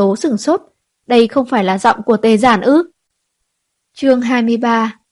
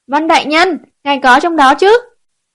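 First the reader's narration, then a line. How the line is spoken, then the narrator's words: Loud call. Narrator (Vietnamese): có người cao giọng hô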